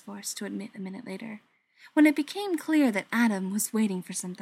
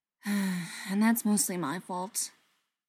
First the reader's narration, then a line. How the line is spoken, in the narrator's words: said with a sigh